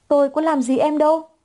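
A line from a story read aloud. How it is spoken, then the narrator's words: Shouted. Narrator (Vietnamese): Khuôn mặt đó bừng hét lên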